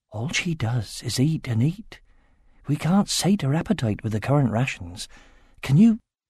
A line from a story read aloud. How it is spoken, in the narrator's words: Angela whispered